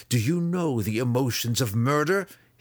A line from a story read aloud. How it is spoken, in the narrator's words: he spat